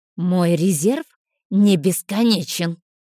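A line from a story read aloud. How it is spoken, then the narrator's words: Snakelike hiss. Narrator (Russian): змеей зашипела целительница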